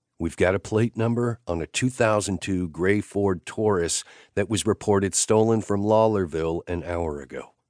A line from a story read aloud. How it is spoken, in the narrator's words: Lucian said